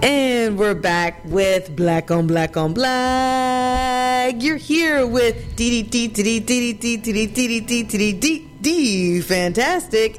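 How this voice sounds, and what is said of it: Booming ballpark announcer voice. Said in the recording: “why do you sound like a ballpark announcer?”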